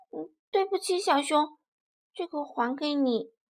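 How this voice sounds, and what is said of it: Soft, quiet voice. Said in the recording (Chinese): “小声地说”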